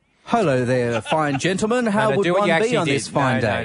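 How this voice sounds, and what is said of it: Put-on English gentleman accent. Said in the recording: “I accidentally started to adopt like an English gentleman accent. Because I thought the more rounded I sound”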